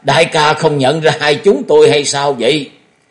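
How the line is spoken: Laughing loudly. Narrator (Vietnamese): Hai bóng đen cười to một tiếng

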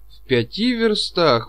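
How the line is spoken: Excited exclamation. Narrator (Russian): воскликнул Чичиков и даже почувствовал небольшое сердечное биение

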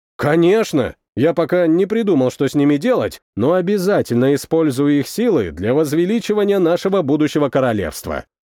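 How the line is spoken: Plain. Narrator (Russian): ответил я

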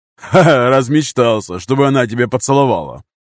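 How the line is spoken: Male guffawing laugh. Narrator (Russian): захохотал мужской голос

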